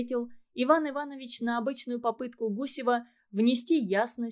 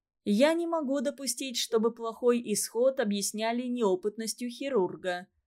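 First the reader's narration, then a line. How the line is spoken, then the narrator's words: Plain. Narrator (Russian): сказал он однажды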